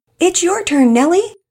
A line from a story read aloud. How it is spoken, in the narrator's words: From the pool, called out